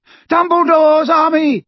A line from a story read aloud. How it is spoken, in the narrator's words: he shouted